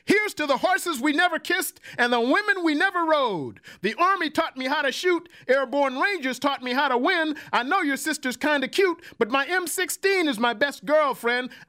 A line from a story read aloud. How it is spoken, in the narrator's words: The soul brother smiled shouted